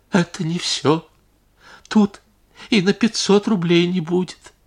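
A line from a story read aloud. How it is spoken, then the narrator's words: Tearful. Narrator (Russian): Барыня сквозь слезы сказала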